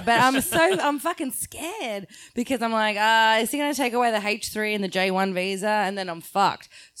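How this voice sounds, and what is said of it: Australian accent. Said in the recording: “You have an accent ... That's how we say it in Australia.”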